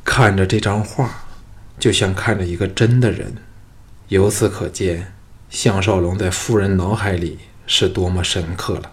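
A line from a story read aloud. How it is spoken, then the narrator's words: Sighing. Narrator (Chinese): 项少龙叹道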